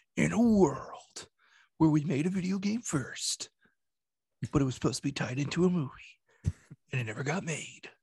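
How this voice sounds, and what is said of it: Dramatic movie trailer narrator voice. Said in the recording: “trailer voice”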